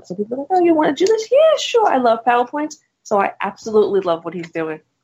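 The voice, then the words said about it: New York accent. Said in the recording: “for those of you who can't tell by the accent, ... is a native New Yorker”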